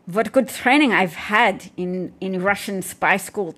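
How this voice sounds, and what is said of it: Poor attempt at Russian accent. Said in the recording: “I'll try and do a Russian accent. ... No, I can't. ... my accent's a mess.”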